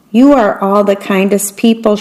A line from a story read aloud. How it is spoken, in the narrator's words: she said